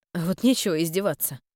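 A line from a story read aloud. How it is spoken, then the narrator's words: Grumble. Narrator (Russian): пробурчала я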